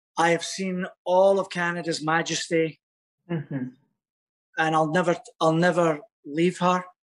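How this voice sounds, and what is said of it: Foreign accent. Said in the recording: “Don't let this accent fool you.”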